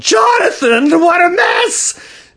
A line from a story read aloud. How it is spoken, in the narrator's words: She yelled